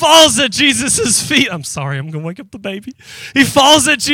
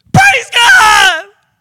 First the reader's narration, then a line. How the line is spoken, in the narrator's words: He was shouting